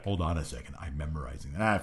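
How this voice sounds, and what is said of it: Monotone impression of Ryback. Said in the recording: “His tone of voice didn't change at all ... monotone Ryback ... That's how he talks ... doing an impression of somebody ... It's Ryback”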